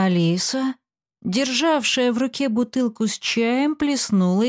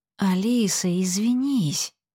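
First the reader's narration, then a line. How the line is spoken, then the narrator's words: Whisper. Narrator (Russian): шептала Аглая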